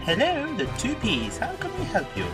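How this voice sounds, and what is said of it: Posh telephone voice. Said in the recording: “That's my posh phone voice.”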